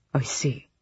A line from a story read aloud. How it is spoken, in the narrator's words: he murmured